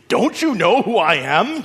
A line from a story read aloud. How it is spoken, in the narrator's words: snarled